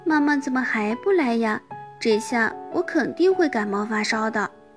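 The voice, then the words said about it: Quiet, mumbling child's voice. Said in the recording (Chinese): “小声的嘟囔着”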